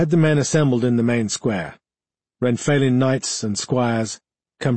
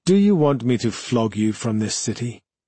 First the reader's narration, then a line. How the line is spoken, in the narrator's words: His tone was mild, but he knew the Alperin could hear its sincerity